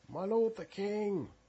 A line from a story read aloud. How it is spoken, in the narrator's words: cried out after Saul, saying